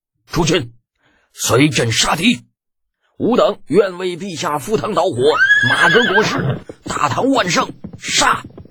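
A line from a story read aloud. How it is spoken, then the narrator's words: Fervent battle cry. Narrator (Chinese): 热血上涌之下 李二 一声战吼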